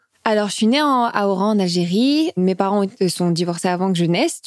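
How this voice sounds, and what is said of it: Regional French accent. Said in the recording (French): “il y a encore l'accent ... il faut le garder, hein, cet accent-là”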